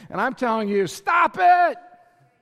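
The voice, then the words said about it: Shouting loudly. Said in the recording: “I'm yelling”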